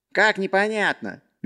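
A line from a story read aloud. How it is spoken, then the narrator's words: Cheerful. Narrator (Russian): весело отозвался Сек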